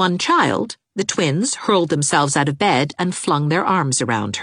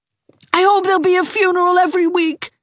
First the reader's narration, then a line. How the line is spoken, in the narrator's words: cried Gerald